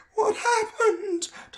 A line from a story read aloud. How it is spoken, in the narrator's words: Tom asked, his voice sounding thin and scared